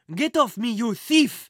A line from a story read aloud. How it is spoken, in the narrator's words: Henri shouted